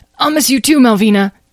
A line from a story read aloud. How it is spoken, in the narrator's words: gasped, rubbing his ribs